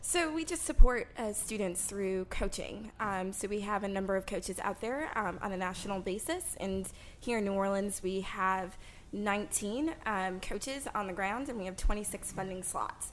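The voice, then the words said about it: Midwestern American accent. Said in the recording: “your accent doesn't sound anything like what you look like ... You sound like you come from California or something ... Just a beautiful Midwesterner's accent ... Midwestern ... that California girl type ... I thought you sounded like a surfer.”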